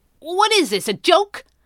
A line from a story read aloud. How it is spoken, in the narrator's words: the wiry man barked